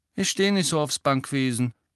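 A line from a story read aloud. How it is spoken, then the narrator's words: Mumbling. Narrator (German): nuschelte Hermine, die nun vertieft war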